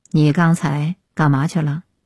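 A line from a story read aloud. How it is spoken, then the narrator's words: Low, deep question. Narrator (Chinese): 湘江沉声又问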